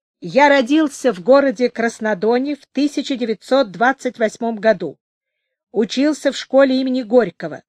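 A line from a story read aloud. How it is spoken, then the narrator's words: Ringing recitation voice. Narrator (Russian): Радик Юркин звонким голосом, каким он отвечал урок в классе, сказал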